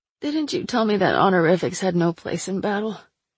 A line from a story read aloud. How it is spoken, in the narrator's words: I croaked, strangely lightheaded